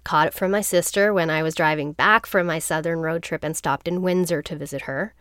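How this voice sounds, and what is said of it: Sick voice with a cold. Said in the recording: “as you can probably hear in my voice, I am a little sick right now. Just a cold.”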